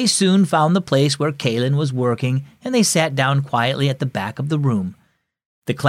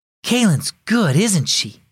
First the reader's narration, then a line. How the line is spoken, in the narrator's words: whispered Cecilia